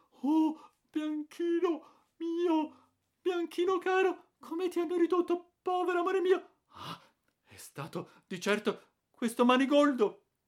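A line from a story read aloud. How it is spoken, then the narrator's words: Trembling, moaning. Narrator (Italian): tremando come una foglia e gemendo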